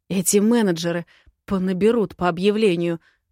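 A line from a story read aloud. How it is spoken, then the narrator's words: Growling. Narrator (Russian): рычала я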